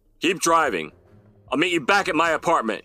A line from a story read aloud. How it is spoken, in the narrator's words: He shouted back at her